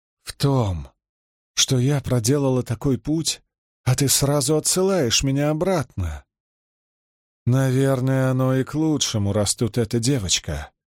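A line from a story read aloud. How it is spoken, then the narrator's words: Sighing. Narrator (Russian): вздохнула она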